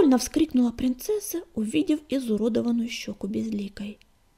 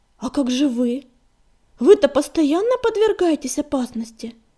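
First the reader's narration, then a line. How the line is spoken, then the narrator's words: Loud wailing. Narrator (Russian): проговорила принцесса и громко запричитала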